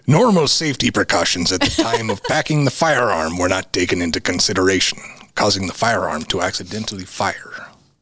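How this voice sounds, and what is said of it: Pirate-style put-on accent. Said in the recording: “do I do an African accent ... let's do the accent that you do, which is a pirate ... It could have been Zambian.”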